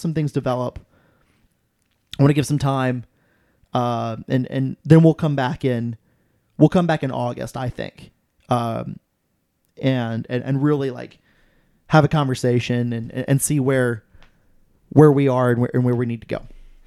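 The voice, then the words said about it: Strained, worn-out voice. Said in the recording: “my voice is so screwed up from Saturday's match ... drinking beer”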